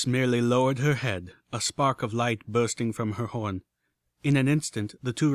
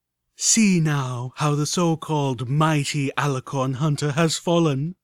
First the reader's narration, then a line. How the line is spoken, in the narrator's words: majestic and cruel voice of the pseudo-goddess purred in my head